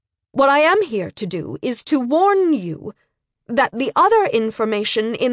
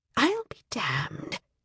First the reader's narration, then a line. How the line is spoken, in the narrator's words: it said softly